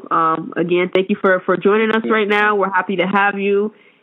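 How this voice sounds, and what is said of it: Hoarse, sick-sounding voice. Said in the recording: “I don't know if you can hear it. Excuse my voice. ... I'm a little under the weather”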